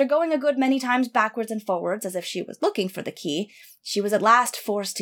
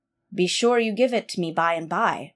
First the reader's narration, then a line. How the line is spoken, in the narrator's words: replied Bluebeard